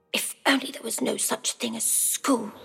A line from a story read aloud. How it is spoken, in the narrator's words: He muttered to himself